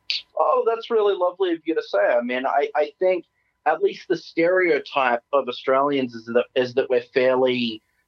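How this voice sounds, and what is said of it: Thick Australian accent. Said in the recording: “I actually don't really enjoy the Australian accent, and mine being so thick”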